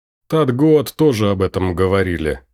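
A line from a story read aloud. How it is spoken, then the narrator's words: Short laugh. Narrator (Russian): хохотнул Люк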